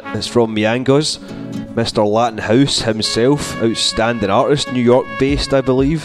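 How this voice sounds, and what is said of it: Scottish accent. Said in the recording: “Scottish accent and all”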